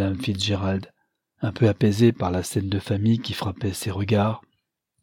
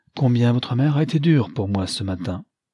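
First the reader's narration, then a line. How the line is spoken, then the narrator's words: Cheerful. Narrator (French): dit gaiement Lionel à sa femme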